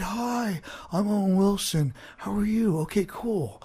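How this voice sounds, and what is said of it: Owen Wilson impression. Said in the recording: “doing a voice and think, can I do that voice? Can I do him?... am I doing him or am I doing Wayne from Wayne's World?”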